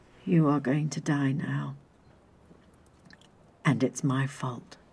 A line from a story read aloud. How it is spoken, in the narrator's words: the young man said slowly and calmly